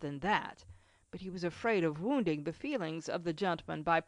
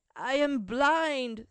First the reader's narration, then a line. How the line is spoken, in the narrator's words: sobbed out the old man